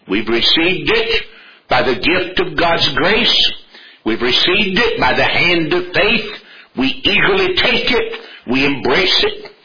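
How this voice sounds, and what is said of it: Southern American accent. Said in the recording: “Just in case you can't tell it by my accent ... I'm not only an American, I am a Southern American.”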